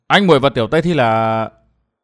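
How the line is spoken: Hesitant. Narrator (Vietnamese): Chàng ngập ngừng

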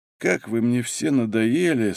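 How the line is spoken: Groggy creaky voice. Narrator (Russian): с трудом продирая глаза, проскрипел криминалист

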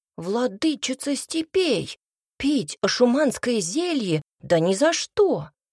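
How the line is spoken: Exclaiming. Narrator (Russian): воскликнул Цинта

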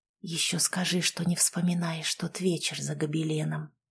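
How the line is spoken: Intimate whisper. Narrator (Russian): прошептал в шею

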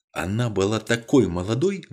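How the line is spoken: Agitated whisper. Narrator (Russian): взволнованно прошептал Мередит Блейк

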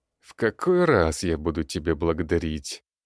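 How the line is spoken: Tired, sighing. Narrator (Russian): Устало улыбается и вздыхает Сергей

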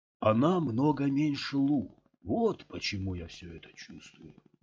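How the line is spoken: Sighing. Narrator (Russian): Скотт вздохнул

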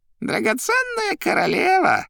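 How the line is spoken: Squeaky voice. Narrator (Russian): пищал Коровьев

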